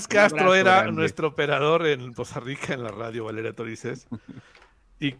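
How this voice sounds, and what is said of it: Usual voice. Nothing is said of it.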